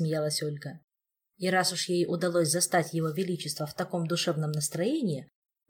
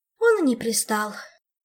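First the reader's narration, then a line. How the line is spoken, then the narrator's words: Sighing. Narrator (Russian): вздохнула Ольга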